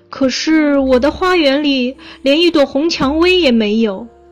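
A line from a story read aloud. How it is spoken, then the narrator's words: Loud young student. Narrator (Chinese): 年轻的学生大声说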